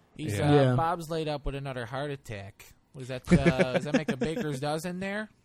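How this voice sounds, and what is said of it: Exaggerated Chicago accent. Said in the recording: “the quintessential Chicago accent is the super fans from Saturday Night Live”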